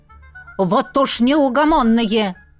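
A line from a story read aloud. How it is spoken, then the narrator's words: Shout from window. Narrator (Russian): крикнула им Гризелла из окна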